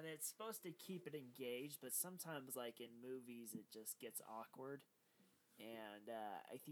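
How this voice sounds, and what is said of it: Usual voice. Nothing is said of it.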